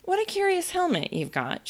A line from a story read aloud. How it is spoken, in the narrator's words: she said cheerfully